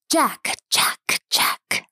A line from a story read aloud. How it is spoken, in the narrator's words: the voice hissed from a completely different section of the swamp